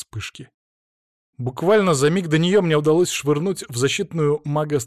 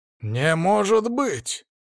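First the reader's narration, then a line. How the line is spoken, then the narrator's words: Shocked gasp. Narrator (Russian): Наконец-то выдохнул шокированный огневик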